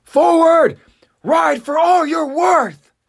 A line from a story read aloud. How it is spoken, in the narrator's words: Commander Irvin yell out